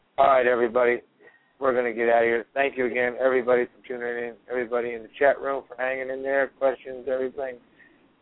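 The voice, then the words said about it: Hoarse, strained, failing voice. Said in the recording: “I can barely talk. I'm losing my voice”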